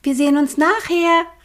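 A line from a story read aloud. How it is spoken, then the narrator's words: Called out. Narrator (German): rief sie den beiden Vögeln zu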